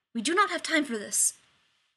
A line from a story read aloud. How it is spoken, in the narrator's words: Zelenka said sharply